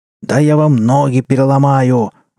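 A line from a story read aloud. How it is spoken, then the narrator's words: Roaring. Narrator (Russian): взревел Федоров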